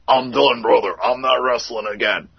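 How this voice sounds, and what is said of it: Imitates another person's voice, poorly. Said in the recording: “my impersonation stinks”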